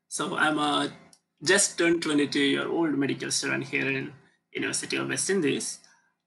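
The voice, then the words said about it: Indian English accent. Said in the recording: “with my accent, you already know that I'm from India”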